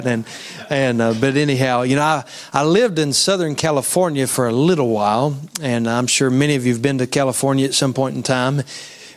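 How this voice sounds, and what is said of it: West Virginian accent. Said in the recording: “I've never heard an accent quite like that before." And I said, "I'm from West Virginia.”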